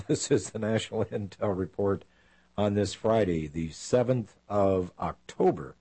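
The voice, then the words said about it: Raspy voice. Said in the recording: “raspy-voiced”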